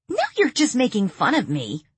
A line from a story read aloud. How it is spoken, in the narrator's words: Heather snapped